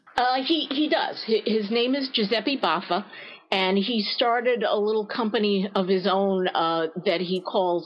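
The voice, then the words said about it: New York accent. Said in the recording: “with a New York accent”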